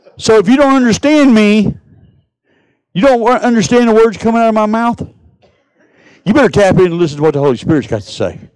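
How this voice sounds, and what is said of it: Texan Southern country accent. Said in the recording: “I'm talking in Texas, Mississippi, and y'all probably don't understand me all the way ... I speak Texan. I speak redneck country biker.”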